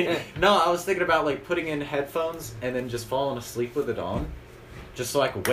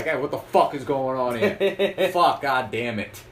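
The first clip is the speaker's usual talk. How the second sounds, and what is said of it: Put-on New Jersey accent. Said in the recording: “New Jersey, so I don't know if I'm going to be able to get the accent”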